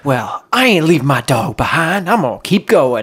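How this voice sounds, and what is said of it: Country bumpkin accent. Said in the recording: “Country bumpkin accent you were doing. ... That was perfect.”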